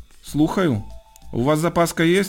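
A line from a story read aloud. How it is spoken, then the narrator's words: Stern male voice asking. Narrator (Ukrainian): суворо запитав чоловічий голос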